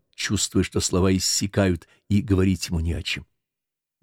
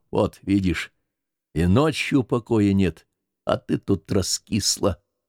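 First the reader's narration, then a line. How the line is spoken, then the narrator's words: Quiet. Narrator (Russian): Тихон сказал тихонько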